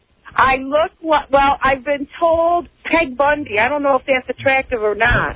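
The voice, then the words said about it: Rochester accent, flat A vowel. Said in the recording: “You have the flat A. ... It's the Rochester A.”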